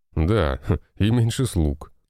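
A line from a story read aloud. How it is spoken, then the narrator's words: Big man's chuckle. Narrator (Russian): хохотнул этот двухметровый здоровяк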